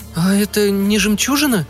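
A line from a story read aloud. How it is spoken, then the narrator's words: Trembling tentative voice. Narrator (Russian): предположила она дрогнувшим голосом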